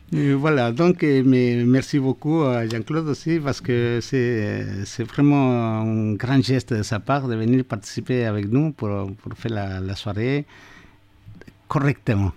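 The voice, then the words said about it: Latin American accent in French. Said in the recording (French): “avec mon accent ... Mais avec ton accent, ça fait typiquement latino-américain”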